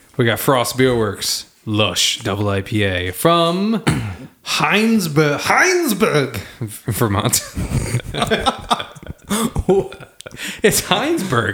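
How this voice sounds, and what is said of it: Exaggerated German/Austrian accent impression. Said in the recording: “I had to say it in a very racist German accent... That was a pretty good impression of a German... that was actually Arnold Schwarzenegger... Austrian.”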